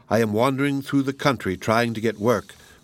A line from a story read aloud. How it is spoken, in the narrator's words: replied Peter